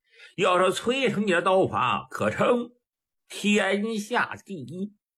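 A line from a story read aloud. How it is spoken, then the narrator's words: Slight smile. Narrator (Chinese): 普陀微含一笑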